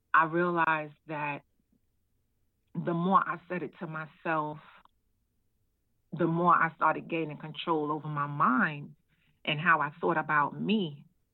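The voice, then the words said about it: Emotional, voice close to tears. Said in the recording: “I'm sorry, it's a little emotional talking about it”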